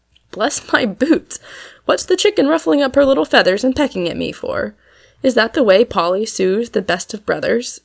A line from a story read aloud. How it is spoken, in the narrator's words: said Tom, still laughing